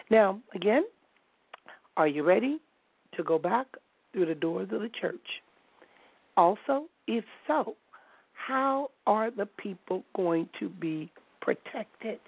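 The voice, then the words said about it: Hoarse, strained voice, speaking softly. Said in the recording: “my voice is giving out, so I'm trying to speak a little softer because for some reason I have been very, very hoarse.”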